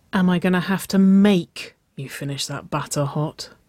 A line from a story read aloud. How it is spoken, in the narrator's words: Waverley breathed